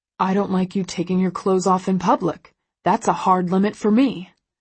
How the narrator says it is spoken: he growls

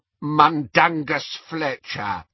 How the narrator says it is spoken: croaked the elf

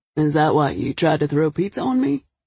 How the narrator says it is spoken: He chuckled

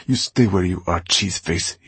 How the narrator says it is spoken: he snapped

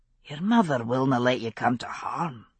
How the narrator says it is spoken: he said gruffly

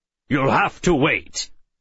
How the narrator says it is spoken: Addison growled

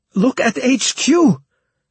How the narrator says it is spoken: shouted Kiwi at my side

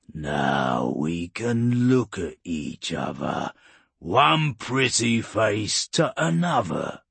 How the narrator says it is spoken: Urgork growled

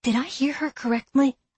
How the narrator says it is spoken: I whispered to Emily

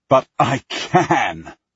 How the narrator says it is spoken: I laugh, feeling almost delirious

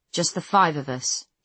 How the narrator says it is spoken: he says

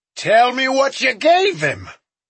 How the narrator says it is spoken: Smoke yelled

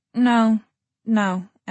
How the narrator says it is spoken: Emma said, and now her voice was shaking

